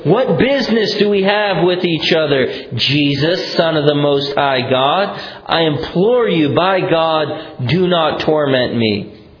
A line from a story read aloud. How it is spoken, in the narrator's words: shouting with a loud voice, he said